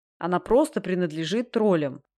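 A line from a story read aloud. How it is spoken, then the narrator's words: Irritated dismissal. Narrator (Russian): раздраженно отмахнулся Дастабль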